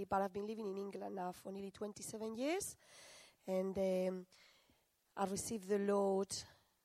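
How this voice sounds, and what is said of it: Spanish accent. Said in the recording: “My accent is because I'm half French, half Spanish. My accent is Spanish, really”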